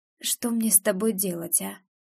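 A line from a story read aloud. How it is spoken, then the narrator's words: Soft, bewildered exhale. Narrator (Russian): Тихо выдыхает Верещагин, как-то совсем растерянно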